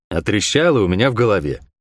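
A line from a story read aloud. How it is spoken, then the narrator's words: Gloomy reply. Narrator (Russian): мрачно отозвался я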